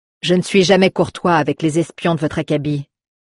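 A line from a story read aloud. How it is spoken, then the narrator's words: Contemptuous tone. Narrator (French): reprit Galliad d'un ton méprisant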